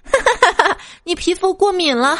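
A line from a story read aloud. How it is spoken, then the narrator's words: Loud laughter. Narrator (Chinese): 小白兔忍不住大笑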